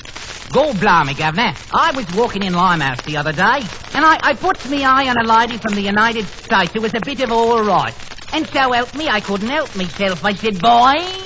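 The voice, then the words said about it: Put-on Cockney English accent. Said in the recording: “An Englishman. ... what type of English accent? ... Limey. ... Limey or Cockney, that's exactly right.”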